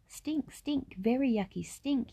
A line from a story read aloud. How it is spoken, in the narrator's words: yelled Tate